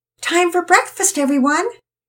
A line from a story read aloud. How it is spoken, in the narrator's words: Mama Peter shouted from downstairs